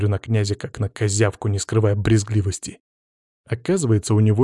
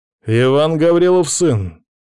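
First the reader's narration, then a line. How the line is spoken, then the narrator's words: Loud call. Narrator (Russian): громко зову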